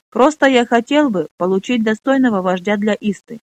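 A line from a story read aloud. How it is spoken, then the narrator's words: Said sharply. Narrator (Russian): резко произнес Драм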